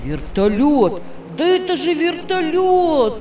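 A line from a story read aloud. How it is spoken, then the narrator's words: Excited shouting. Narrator (Russian): Тима закричал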